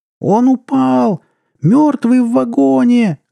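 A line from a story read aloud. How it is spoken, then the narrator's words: Shrieking. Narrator (Russian): завизжала она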